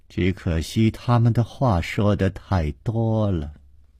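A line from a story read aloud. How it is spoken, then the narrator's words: Flat, indifferent. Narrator (Chinese): 一个人在旁边淡淡地接着说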